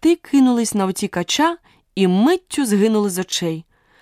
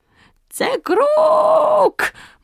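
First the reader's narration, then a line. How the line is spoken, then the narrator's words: Eerie shriek. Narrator (Ukrainian): моторошно заверещав Круть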